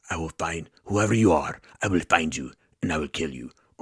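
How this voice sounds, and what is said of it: Liam Neeson impression. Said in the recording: “Think Liam Neeson style ... That's his accent, right?”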